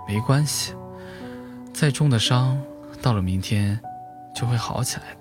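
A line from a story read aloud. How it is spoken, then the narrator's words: Drunk's mumbling laugh. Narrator (Chinese): 醉汉吭哧吭哧地笑了起来，声音如同呓语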